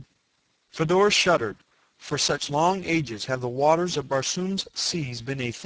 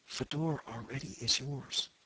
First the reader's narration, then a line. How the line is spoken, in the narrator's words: she stumbled a little here, and then in a very low voice